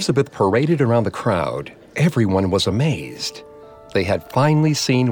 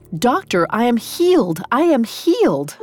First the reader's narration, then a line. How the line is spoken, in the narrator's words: cried